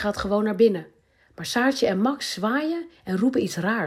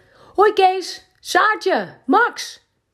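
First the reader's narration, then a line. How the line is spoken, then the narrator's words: Calling from afar. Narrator (Dutch): roept hij al uit de verte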